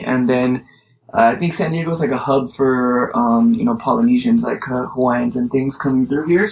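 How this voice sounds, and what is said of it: Mixed accent with Jamaican influence. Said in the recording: “what's your accent? ... I'm like a mesh too, because I got this Jamaican influence too ... the patchwork kind of Rasta thing in there”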